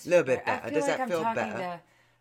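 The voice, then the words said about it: Put-on Cockney British accent. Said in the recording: “your British accent ... go Cockney or just full British ... A little Cockney”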